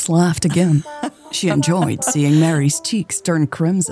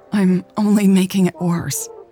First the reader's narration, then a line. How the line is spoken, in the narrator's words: Mary stammered